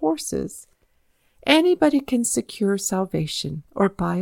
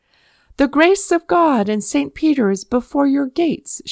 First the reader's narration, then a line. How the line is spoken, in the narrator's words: shout the sheriff